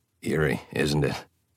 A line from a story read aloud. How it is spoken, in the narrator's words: Emmett murmured to Bella